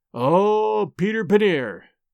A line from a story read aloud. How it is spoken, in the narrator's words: groaned inwardly